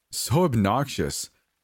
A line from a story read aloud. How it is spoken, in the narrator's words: my cousin laughed